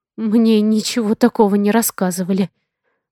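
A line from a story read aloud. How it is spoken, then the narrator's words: Whisper. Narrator (Russian): шепнула я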